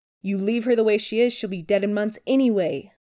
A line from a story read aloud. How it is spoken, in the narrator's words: Chris snarls, teeth flashing with every biting word